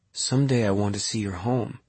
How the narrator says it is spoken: Faye said

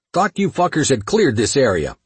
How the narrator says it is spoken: I barked

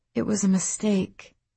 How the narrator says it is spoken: her mother said gently

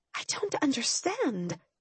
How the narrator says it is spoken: I whispered

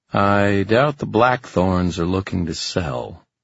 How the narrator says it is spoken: said the man dryly

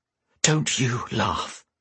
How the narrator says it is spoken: Whisper growled

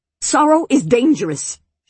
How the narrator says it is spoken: she snapped

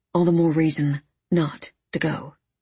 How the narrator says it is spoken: said Earl

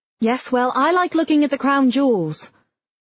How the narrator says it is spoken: Mum called out

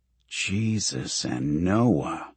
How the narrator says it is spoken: Carlyle mutters

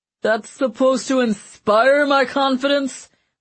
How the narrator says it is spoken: Mancini wailed

